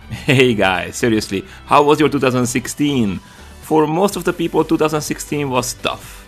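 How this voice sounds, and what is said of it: Central European accent. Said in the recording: “confusing Hungaroslavic accent”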